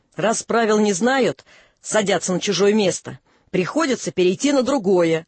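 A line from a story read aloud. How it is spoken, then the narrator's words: Angry, insinuating snort. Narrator (Russian): Женька сердито хмыкнула, говорит с намеком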